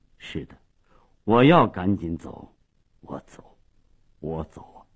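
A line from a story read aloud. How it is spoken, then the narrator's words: Low, hoarse, after silence. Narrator (Chinese): 沉默了半分钟，最后用低沉沙哑的声音说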